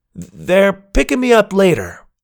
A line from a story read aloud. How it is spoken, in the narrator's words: I shouted back